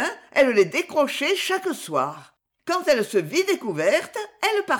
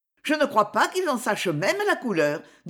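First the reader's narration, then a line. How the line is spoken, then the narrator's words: Curt, dry. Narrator (French): dit Ferdine sèchement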